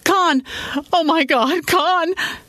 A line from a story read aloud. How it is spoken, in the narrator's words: she screamed